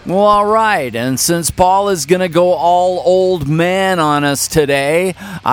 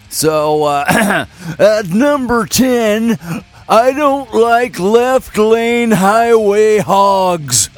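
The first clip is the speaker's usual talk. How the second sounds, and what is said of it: Old man voice. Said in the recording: “old man voice”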